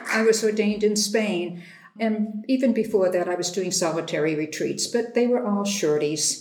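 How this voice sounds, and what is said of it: Boston accent. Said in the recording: “far from Boston, that's the accent you're hearing”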